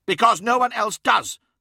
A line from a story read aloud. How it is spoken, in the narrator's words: snapped Adaman